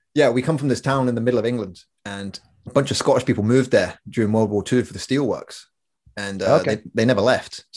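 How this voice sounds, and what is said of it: English accent with Scottish influence. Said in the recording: “we got a weird accent. ... We're half Scottish, basically.”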